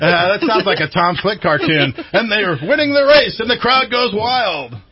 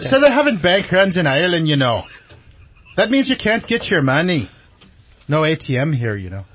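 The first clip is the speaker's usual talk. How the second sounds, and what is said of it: Put-on Irish accent. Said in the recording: “News of the world in the Irish accent... I could be Irish.”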